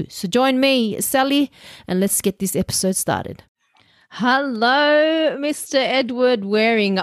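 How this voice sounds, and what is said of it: Thick accent. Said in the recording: “I've got my thick accent”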